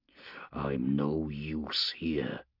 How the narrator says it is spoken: Priscor growled

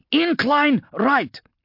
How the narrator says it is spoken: Hanlon barked into her comlink

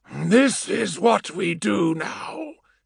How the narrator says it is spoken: Eidolon rasped, feeling his vocal cords burning

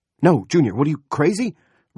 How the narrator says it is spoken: Roop shouted

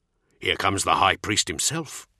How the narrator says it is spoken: he growled

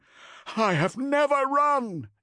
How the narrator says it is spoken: yelled Cestus

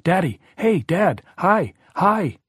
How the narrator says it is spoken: Danny yelling

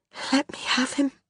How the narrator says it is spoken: Constance said feebly

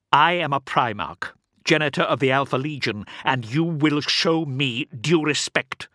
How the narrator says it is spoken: snapped Alpharius

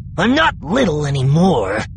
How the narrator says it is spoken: Sim snapped

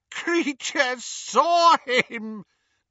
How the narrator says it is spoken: gasped the elf, as tears poured over his snout

